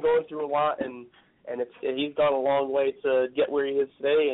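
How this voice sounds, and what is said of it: Slightly raspy voice. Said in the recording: “my voice is a little raspy, and I'm still coughing up a little bit.”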